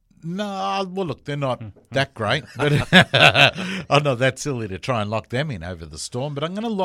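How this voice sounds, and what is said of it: Usual voice. Nothing is said of it.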